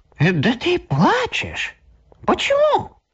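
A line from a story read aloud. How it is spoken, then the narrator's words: Surprised exclamation. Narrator (Russian): гном удивленно воскликнул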